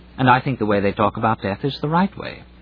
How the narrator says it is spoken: said Ransom a little stiffly

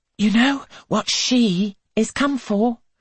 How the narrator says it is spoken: Angelica pants

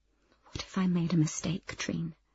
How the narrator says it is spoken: She said, so quietly that only I could hear it

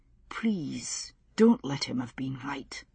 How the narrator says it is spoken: he whispered instead

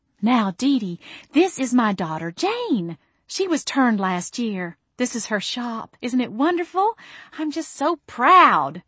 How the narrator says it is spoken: Mama cooed

